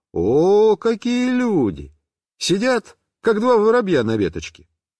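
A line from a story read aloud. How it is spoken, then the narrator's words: Cheerful. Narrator (Russian): весело сказал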